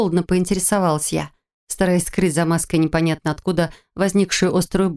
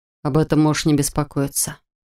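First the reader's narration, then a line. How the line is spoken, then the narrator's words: Even-voiced man. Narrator (Russian): ровным голосом произнес мужчина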